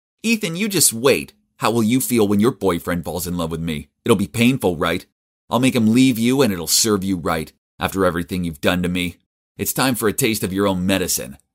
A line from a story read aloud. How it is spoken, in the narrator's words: She was speaking in a mean tone, saying